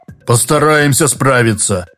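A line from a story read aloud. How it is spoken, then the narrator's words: Booming, bearded man. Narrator (Russian): прогудел бородач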